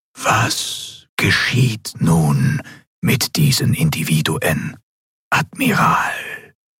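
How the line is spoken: Ghostly whisper. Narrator (German): die gespenstische Stimme des Gouverneurs wieder direkt in ihrem Verstand flüsterte

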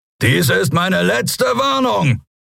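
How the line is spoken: Roaring. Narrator (German): brüllte er

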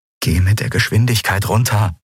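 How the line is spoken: Pleading. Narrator (German): flehte Kai

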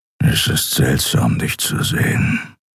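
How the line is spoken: Grumbling. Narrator (German): brummte er

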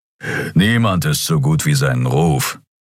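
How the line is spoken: Growled. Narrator (German): knurrte Keru

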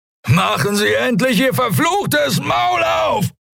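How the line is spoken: Shout. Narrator (German): schrie er

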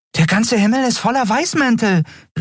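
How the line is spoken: Exclaimed. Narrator (German): rief Nelen aus

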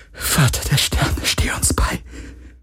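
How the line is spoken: Whisper. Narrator (German): flüsterte sie

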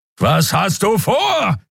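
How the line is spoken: Roaring again. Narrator (German): brüllte Keru wieder

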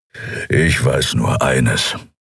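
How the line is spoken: Growling. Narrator (German): knurren

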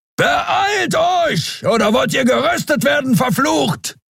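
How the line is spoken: Thundering. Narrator (German): donnerte Keru

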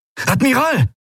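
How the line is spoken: Called out. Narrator (German): rief Quailor

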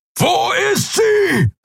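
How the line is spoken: Bellowing. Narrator (German): brüllte er

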